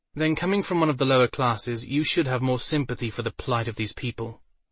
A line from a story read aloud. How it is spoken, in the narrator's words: Melissa said